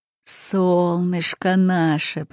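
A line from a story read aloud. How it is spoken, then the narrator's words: Deep bass, grandfather. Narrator (Russian): пробасил дедушка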